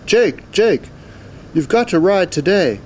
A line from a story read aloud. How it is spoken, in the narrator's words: called out